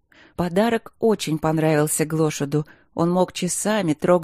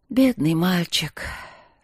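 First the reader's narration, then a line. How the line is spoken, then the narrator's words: Sad sigh, old nanny. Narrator (Russian): Печально вздохнув, старая нянюшка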